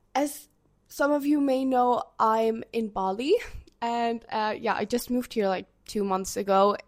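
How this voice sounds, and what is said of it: Sick, slightly off voice. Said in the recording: “my voice sounds a bit weird, but I'm a bit sick currently”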